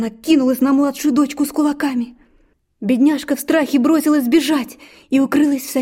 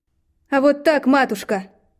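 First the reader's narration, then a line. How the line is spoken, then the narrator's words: Daughter's muttered reply. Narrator (Russian): Буркнула в ответ дочка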